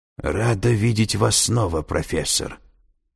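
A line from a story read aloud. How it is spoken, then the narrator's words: Hoarse voice. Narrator (Russian): прозвучал знакомый хриплый голос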